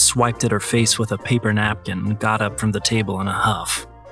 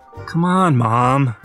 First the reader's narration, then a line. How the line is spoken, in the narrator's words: I pleaded